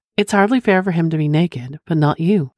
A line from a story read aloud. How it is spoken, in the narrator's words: I replied